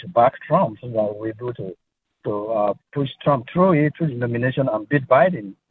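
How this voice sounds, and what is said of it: African accent, slightly French-sounding English. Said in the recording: “your English is very good, but your accent to me sounds French, but it also sounds African ... I'm African ... the way you speak English, it feels a little French as well”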